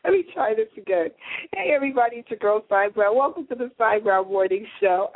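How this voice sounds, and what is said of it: Raspy, hoarse voice. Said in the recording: “I am sounding, ... a little raspy today.”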